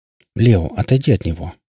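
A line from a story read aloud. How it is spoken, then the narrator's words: Gentle request. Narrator (Russian): мягко попросил Сид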